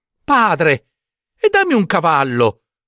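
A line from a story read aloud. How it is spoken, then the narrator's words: Shouted. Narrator (Italian): gridò Giambabbeo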